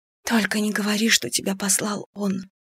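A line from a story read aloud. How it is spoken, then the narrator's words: Whisper. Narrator (Russian): прошептала я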